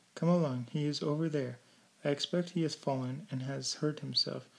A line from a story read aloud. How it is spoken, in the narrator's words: cried Pam